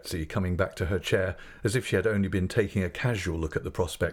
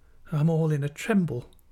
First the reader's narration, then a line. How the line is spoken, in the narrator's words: faltered my mother